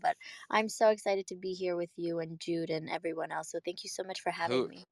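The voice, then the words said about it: Hoarse, partly lost voice. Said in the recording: “I lost my voice a little ... I don't recognize that voice.”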